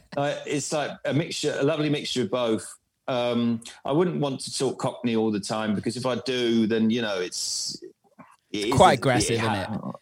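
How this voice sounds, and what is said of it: Mixed London and Bournemouth English accent. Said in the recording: “My accent is actually a mixture between London and Bournemouth. So it's like a little bit of a farmer's boy”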